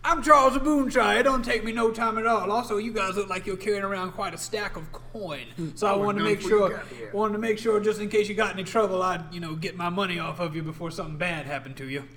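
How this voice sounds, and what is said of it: Gruff southern character voice. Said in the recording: “I think he sounded a little bit southern... He was very gruff... Boonshire sounds southern.”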